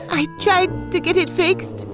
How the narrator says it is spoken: Lie continued nervously

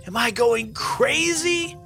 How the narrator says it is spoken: yelled Finn

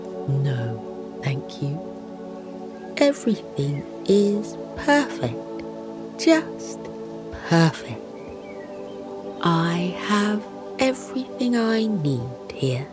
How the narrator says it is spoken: The bear smiles softly, and says

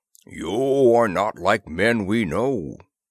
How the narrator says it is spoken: the chief Skygar boomed to Disbro

